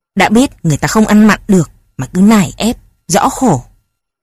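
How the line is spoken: Irritated father snapping. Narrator (Vietnamese): Ông bố gắt

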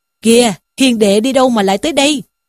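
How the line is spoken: Delighted. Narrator (Vietnamese): Lý Trung ... hớn hở mà rằng

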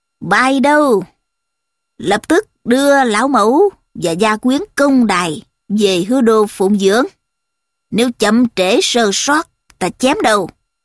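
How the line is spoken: Loud commanding order. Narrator (Vietnamese): Thao lớn tiếng truyền bảo những người tùy tùng rằng

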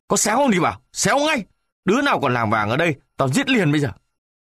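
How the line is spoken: Furious shout. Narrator (Vietnamese): Cậu lính tức quá, quát

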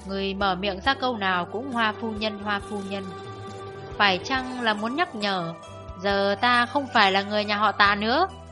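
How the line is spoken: Sneering. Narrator (Vietnamese): Tạ Phụng Hoàng cười nhạt bảo

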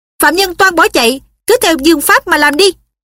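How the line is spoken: Shouted order. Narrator (Vietnamese): Hợp Đức liền quát bọn nội thị

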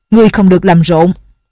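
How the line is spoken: Joint sharp shout. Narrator (Vietnamese): Nhạc Bất Quần và Nhạc phu nhân cùng quát

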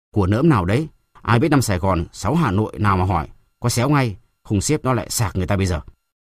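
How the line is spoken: Deep gruff shout. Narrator (Vietnamese): Một giọng ồ ồ quát

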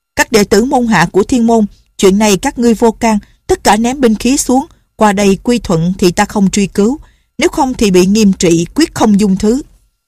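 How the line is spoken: Shouting. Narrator (Vietnamese): Ngọc Cơ Tử la lên

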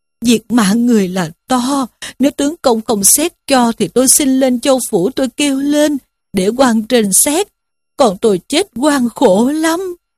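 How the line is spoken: Wailing, weeping. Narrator (Vietnamese): Diêm Bà rên rỉ khóc lóc mà rằng

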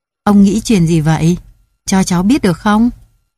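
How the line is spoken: Smiling question. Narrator (Vietnamese): Đại công tử mỉm cười hỏi

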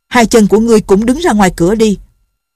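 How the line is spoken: Shouting. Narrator (Vietnamese): Nghiêm Tâm Tình quát

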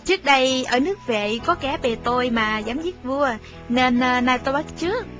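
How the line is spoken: Smiling reply. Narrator (Vietnamese): Thái Tể Sú mỉm cười đáp

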